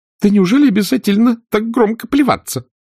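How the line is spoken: Exclamation ringing with irritation. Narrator (Russian): воскликнула Индия, звенящим от раздражения голосом

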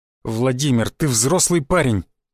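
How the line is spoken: Irritated. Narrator (Russian): раздраженно произнес Шишаков

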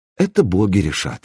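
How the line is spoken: Calm reply. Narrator (Russian): спокойно ответил Дан

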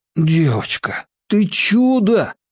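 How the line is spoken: Breathless exhale. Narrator (Russian): выдохнул Мир

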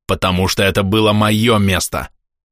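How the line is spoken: Growl. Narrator (Russian): прорычал Берислав

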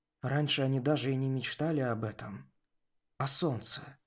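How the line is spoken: Mumbled. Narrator (Russian): пробормотал Руб

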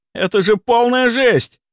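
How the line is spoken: Hysterical shout. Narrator (Russian): истерично выкрикнул

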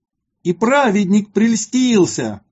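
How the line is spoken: Shouting crowd. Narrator (Russian): кричали они

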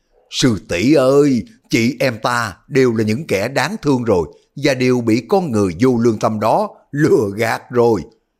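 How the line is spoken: Shouting. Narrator (Vietnamese): Lý Thu Thủy hét lên

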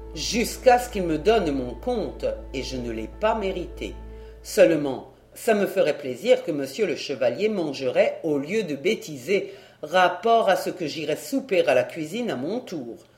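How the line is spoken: Almost curt. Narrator (French): déclara-t-il presque sèchement

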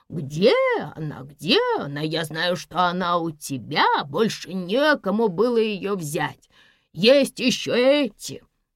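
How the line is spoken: Plain. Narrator (Russian): говорит

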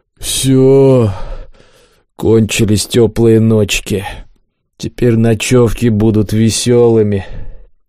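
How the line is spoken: Glum grumble while eating. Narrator (Russian): Кабан, уныло опустошая свою миску, буркнул

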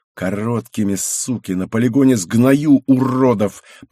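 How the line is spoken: Growled. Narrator (Russian): прорычал Святов

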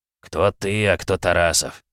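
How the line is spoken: Grumbling. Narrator (Russian): проворчал Нюк

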